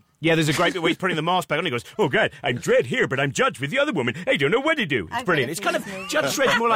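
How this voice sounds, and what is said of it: Usual voice. Nothing is said of it.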